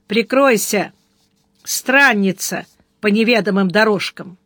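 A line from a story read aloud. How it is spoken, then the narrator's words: Rough bark. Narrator (Russian): Сварог грубо рявкнул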